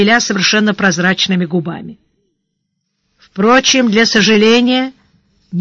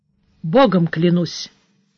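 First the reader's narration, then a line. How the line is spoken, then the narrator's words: Calm. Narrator (Russian): сказал Сварог спокойно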